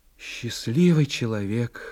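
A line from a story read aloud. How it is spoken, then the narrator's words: Sighing. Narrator (Russian): вздохнула она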